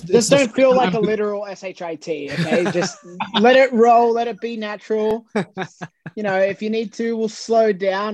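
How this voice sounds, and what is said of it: Broad Australian accent. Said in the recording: “my Aussie Bogan accent can come out sometimes, and I know that's hard for people to understand”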